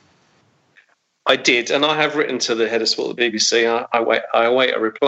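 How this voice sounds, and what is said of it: Usual voice. Nothing is said of it.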